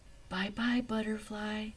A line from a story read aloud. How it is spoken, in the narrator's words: she whispered